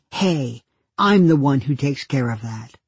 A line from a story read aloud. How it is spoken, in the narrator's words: said firmly